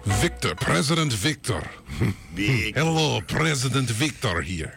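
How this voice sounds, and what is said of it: Put-on accent for a character. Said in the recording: “I don't know why I've given him that accent.”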